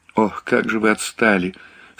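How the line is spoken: Tearful. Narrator (Russian): сквозь слезы произнесла девушка

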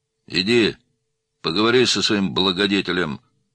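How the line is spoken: Rude. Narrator (Russian): грубо сказал Мироненко

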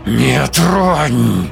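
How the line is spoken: Inhuman animal growl. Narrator (Russian): Прорычала нечеловеческим, звериным голосом

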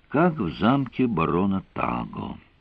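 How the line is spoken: Sighing woman. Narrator (Russian): вздохнула она

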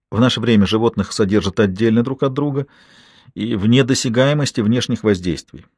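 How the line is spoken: Plain. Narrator (Russian): сказала Бергитта Ларсен

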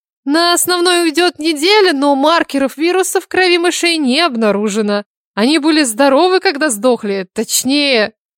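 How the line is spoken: Giggle. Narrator (Russian): хихикнула она

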